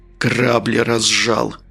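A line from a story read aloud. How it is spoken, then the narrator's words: Hoarse wheeze. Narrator (Russian): сипло прохрипел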